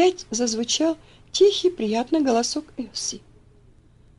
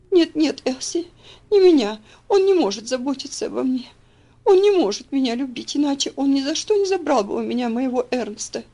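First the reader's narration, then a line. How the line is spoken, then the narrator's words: Sobbing. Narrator (Russian): всхлипнула она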